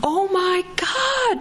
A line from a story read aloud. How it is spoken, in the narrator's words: Maricela screamed